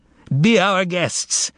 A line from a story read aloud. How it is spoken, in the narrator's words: bellowed Fagot